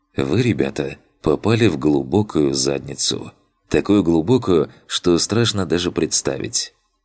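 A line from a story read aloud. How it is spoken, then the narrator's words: Calm serious tone. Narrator (Russian): Лицо его внезапно стало серьезным, и он спокойно произнес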